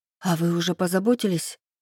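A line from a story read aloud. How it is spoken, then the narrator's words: Breathless. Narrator (Russian): выдохнула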